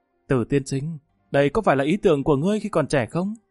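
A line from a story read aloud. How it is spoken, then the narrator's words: Sighing. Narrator (Vietnamese): Lâm Văn Vinh thở dài nói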